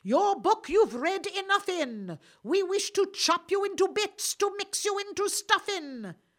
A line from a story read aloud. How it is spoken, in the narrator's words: aloud they cried